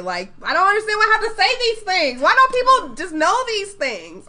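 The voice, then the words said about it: Screaming, yelling angrily. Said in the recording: “I'm screaming ... I'm yelling”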